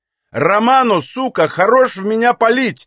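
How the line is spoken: Female shout. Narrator (Russian): крикнула она

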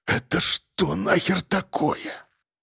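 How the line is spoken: Frightened mutter. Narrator (Russian): пробормотал участковый, чувствуя, как его прошиб холодный пот

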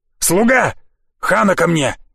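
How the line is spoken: Barking. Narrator (Russian): рявкнул он

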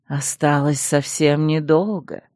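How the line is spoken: Contented melodic purr from aside. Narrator (Russian): довольно промурлыкал откуда-то сбоку мелодичный голос

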